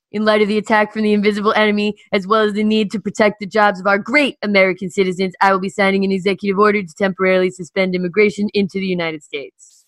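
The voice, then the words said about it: Imitates another person's voice. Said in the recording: “I'll get my Trump ready ... working on that impression”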